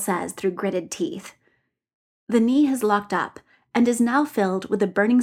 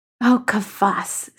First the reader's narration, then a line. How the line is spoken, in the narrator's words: says Dorian